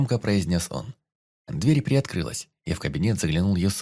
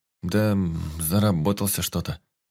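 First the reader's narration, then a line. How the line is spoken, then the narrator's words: Mumbling. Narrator (Russian): промямлил парень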